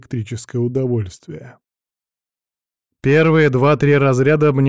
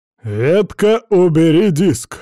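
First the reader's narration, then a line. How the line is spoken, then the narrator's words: Barked. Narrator (Russian): рявкнул старший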